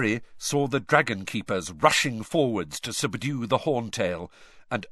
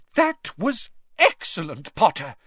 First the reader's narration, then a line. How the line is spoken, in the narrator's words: cried Professor McGonagall, which from her was extravagant praise